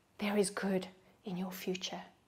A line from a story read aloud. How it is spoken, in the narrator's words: He's whispering